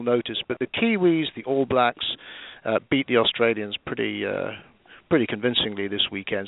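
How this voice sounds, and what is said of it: British accent. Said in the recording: “my accent is entirely British ... pretty British accent”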